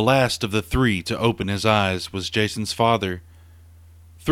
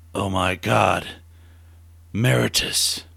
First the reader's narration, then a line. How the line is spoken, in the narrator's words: With wide and terrified eyes, he lifted his head and gasped